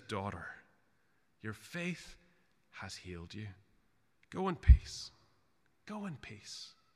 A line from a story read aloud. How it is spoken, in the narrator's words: speaking to her tenderly as a father would to a little child, he says